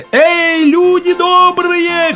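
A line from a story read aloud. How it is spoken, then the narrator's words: Shouting while running. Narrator (Russian): крикнул он на бегу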